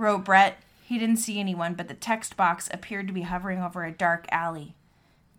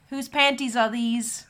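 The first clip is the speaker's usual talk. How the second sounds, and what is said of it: Attempted New Zealand accent. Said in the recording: “I can't do a New Zealand accent.”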